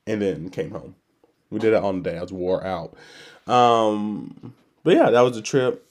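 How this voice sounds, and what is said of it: Altered, congested voice. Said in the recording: “my voice sounds a little different, a little augmented, a little weird, because I'm on the end of the of a cold”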